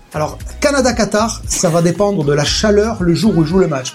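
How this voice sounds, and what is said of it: Southwestern French regional accent. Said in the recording (French): “J'aime son accent. ... L'accent toulousain. ... il est du Gers.”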